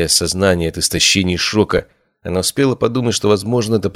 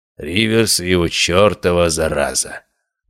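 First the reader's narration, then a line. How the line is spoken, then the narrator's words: Grumbling. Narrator (Russian): проворчал я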